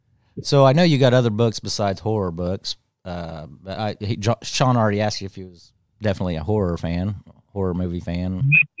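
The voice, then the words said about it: Indiana Midwestern American accent. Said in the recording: “I've got an Indiana accent.”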